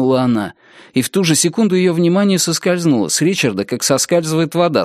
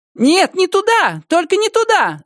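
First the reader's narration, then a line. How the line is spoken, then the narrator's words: Coarse bellowing shout. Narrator (Russian): закричала она грузчиком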